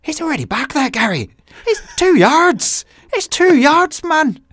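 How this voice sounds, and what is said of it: Passable Irish accent impression of Roy Keane. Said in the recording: “that was my best Irish impression ... Yeah, passable. ... Passable impression.”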